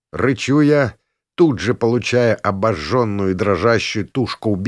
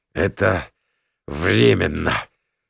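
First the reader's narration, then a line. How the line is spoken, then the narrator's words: Hoarse, badly hurt. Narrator (Russian): хриплю окровавленный вдрызг я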